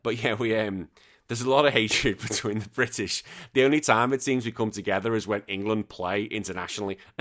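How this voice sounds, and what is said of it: Northern English accent, Scouse-like. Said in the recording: “I get Scouser. That's what I'm not a Scouser. Someone from near, I'm from Liverpool... I'm not from Liverpool. But that's what I get tarnished with because of my accent”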